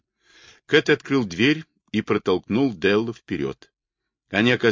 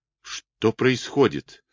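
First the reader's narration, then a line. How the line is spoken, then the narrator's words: Quiet frightened. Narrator (Russian): тихим испуганным голосом спросил Дел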